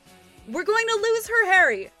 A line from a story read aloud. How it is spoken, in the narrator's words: shouted Eggsy